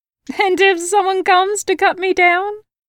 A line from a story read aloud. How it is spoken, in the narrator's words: She laughed